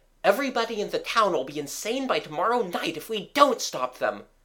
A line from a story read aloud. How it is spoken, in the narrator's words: cried Gerald